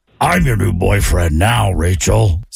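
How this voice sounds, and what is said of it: Terrible Freddy Krueger impression. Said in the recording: “horrible impersonations ... terrible impressions ... Freddy Krueger. It sounded like this.”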